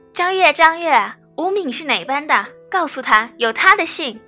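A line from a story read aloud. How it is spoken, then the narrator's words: Woman shouting. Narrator (Chinese): 守门的季阿姨总会大喊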